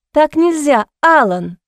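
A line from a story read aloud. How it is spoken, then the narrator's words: Exclamation. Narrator (Russian): воскликнула она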